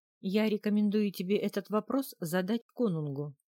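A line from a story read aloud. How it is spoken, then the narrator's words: Calm, hiding fear. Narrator (Russian): спокойно ответила я, хотя саму трясло от волнения, и что уж говорить, от страха тоже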